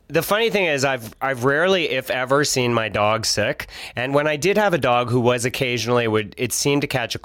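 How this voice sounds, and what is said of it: Nasal, congested voice. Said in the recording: “I sound a little nasally.”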